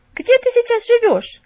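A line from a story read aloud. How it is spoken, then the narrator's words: Loud question. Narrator (Russian): громко спросила ее Мэри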